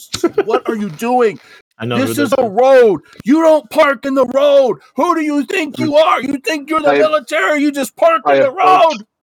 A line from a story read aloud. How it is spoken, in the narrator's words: screaming bloody murder, and she's yelling